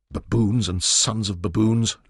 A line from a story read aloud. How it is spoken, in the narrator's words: Leon growled